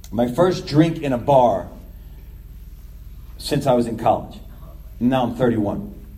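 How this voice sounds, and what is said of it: New York accent. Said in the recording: “they hear your accent. They're like, where are you from? I'm like, New York.”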